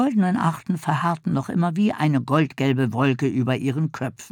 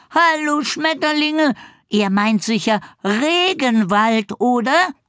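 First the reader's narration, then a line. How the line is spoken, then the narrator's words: Affirming call. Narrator (German): bestätigte Bibber und rief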